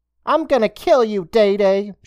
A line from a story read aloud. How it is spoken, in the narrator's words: shouted